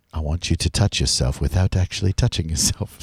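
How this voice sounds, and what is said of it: Hushed, whispery voice. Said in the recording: “whisper ... He speaks in a very hushed tone, much like this.”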